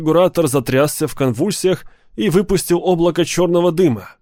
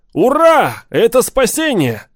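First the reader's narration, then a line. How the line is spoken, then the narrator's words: Shouted. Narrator (Russian): закричал Арнольд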